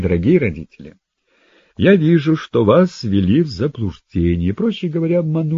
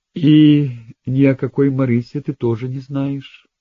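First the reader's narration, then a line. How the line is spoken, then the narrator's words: Mother's calm question. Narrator (Russian): спокойно спросила мать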